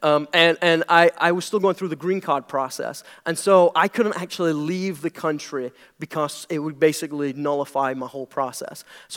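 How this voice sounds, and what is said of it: British accent. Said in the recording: “if you can't tell, I'm British. That's the weird accent.”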